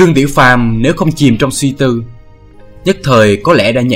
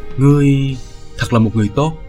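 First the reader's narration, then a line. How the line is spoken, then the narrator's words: Distant, faraway voice. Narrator (Vietnamese): Một lúc lâu sau, Bích Giao đột nhiên mở lời bằng một giọng xa xôi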